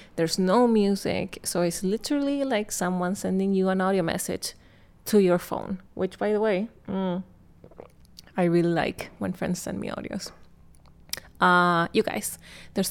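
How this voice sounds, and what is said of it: Speaks with an accent. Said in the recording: “my accent”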